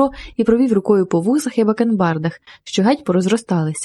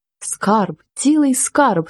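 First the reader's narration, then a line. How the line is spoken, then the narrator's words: Excited cry. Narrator (Ukrainian): скрикнув Янко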